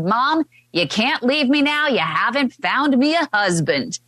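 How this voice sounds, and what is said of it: Put-on Southern drawl. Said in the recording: “why the Southern drawl?”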